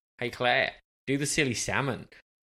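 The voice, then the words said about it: Put-on Australian accent. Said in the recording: “you'll like this Australian accent ... That's the worst accent ever. ... That's pretty good, you know?”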